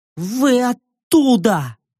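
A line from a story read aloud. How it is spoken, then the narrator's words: Through clenched teeth. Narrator (Russian): девушка процедила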